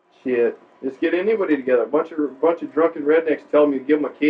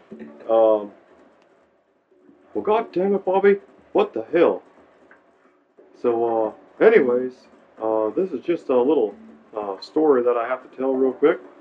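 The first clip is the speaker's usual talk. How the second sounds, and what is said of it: Hank Hill cartoon character impression. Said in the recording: “your Hank Hill impression ... Talking Hank Hill ... in the Hank Hill voice”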